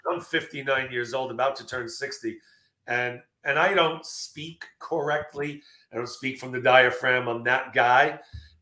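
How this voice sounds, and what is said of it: Hoarse, strained, fading voice. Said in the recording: “losing my voice like I'm losing now”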